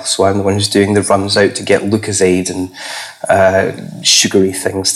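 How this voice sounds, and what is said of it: Lower, husky voice. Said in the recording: “my voice is perhaps slightly lower than it normally is ... You do sound quite husky compared to normal”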